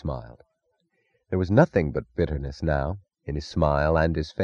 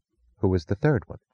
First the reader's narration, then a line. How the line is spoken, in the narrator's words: she asked